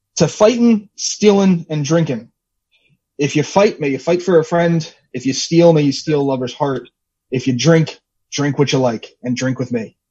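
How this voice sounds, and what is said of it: Irish accent. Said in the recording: “sounds very Irish.”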